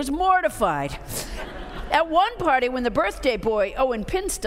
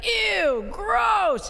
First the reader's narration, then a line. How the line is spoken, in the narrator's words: Disgust disdainfully shouted